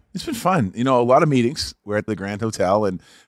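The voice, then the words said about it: Strong Boston accent. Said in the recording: “his unreal Boston accent”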